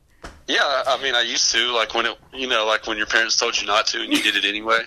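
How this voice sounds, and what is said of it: Noticeable accent. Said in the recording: “I can't understand your accent. ... Oh, I really dig your accent.”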